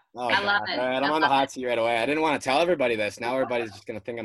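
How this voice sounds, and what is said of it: Strong Minnesotan accent. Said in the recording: “people probably thought I was, you know, a Minnesotan, but you can probably hear my my accent. ... Your accent is very... ... I've been told it's strong”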